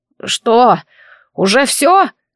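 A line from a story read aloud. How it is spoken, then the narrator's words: Hoarse, croaking, forced out. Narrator (Russian): он выдохнул и хриплым, квакающим голосом выдавил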